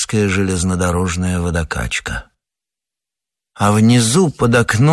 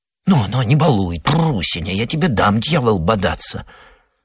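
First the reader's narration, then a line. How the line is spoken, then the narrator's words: Whispered coaxing. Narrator (Russian): Шепотом уламывала хозяйка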